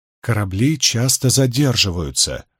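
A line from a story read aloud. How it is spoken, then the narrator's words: Gentle reminder. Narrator (Russian): мягко напомнил ему Мэтью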